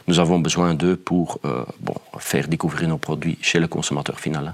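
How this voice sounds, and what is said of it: Slight Flemish accent. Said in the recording (French): “vous avez un léger accent flamand”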